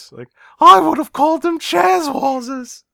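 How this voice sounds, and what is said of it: Squeaky teenage boy voice. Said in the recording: “do the voice ... That was pretty good ... The squeaky voice”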